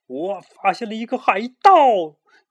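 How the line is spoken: Shouting. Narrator (Chinese): 卢茨佩罗……喊道

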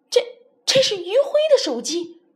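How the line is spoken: Loud cry. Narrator (Chinese): 郑杰大叫一声

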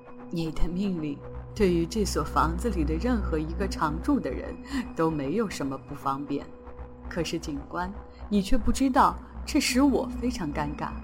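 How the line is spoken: With a smile. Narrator (Chinese): 医生笑了笑说

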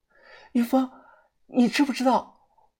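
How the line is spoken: Excited, hurried. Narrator (Chinese): 声音激动且急促

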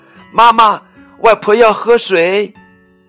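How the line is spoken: Child calling out. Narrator (Chinese): 小乐 叫妈妈

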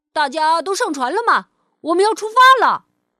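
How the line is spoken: Shouting like a captain. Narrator (Chinese): 蹦蹦模仿着船长的样子喊了起来

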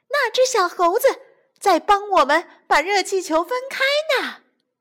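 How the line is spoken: Shouting. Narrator (Chinese): 有人在下面喊起来

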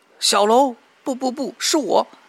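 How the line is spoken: Anguished scream. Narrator (Chinese): 菊仙惨叫

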